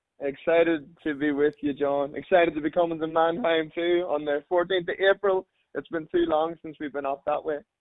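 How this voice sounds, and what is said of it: Irish accent. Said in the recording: “Most people hearing your accent will discern that you grew up across the pond ... I'm Irish, born and bred ... hanging on to my accent”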